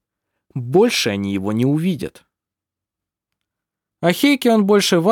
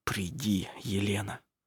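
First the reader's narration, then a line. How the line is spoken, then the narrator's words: Whispered. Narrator (Russian): прошептал он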